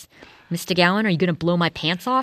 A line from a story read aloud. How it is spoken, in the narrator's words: asked